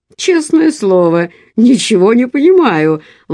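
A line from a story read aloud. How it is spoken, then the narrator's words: Exclaimed. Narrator (Russian): воскликнул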